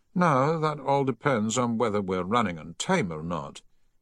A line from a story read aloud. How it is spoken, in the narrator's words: he replied a little wearily